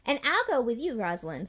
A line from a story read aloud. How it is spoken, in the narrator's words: said Batty